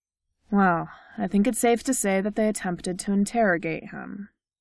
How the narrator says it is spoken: the neurologist said coolly

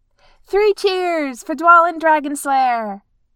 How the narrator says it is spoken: Keeley shouted

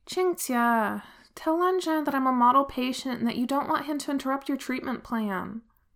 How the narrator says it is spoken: Wei Wuxian just sighs and says

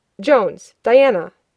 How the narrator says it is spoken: barked

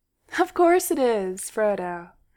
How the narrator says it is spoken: Bilbo said cheerfully

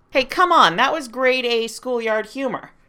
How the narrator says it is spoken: Clint yelled

